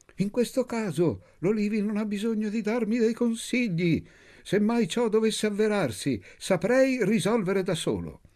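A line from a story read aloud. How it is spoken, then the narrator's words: Yell. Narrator (Italian): Urlò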